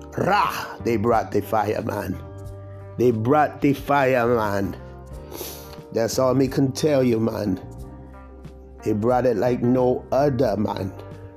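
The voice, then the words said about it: Put-on Jamaican accent. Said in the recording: “my little Jamaican accent ... Still need to work on some of it, but you know, I got some of it down”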